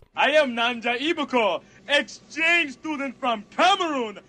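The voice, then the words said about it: Funny put-on accent. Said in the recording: “a funny accent”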